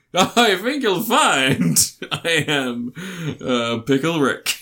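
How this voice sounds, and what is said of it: Imitates a cartoon character's voice. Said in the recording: “best Rick and Morty impression”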